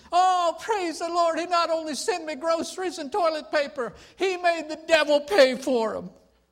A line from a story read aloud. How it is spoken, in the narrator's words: Annie shouted and said